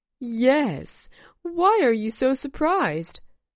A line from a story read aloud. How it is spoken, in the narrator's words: laughed Denise